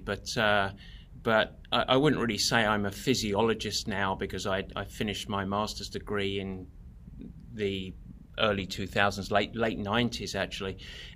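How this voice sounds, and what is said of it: English accent. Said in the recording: “judging by your accent, you are also not native Californian ... I'm English originally, although plenty of Americans confuse me for Australian”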